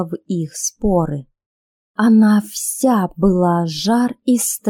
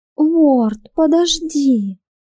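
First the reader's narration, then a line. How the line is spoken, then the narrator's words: Moaning. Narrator (Russian): простонала Анна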